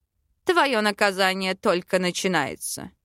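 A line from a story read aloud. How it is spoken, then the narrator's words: Smug grunt. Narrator (Russian): хмыкнул король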